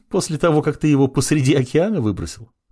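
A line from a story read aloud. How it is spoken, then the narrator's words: Laughing woman. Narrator (Russian): засмеялась она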